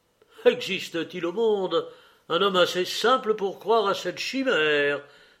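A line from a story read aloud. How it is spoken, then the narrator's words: Stung, exclaiming. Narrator (French): s'écria le jeune homme, piqué d'entendre ce rire muet et plein d'amère dérision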